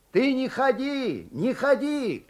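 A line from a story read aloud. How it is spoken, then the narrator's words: Distant shout. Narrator (Russian): кричал он из денника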